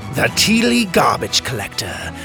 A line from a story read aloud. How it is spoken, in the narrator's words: Kai sneered